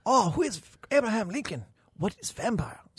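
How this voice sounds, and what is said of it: Put-on Chinese accent. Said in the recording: “best Chinese impression I can do”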